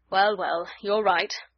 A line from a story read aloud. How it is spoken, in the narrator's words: Vorongil growled